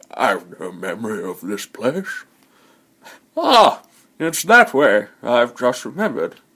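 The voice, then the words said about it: Imitates a wizard character's voice. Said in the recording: “how was my Gandalf impression? ... I'm quite proud of that one.”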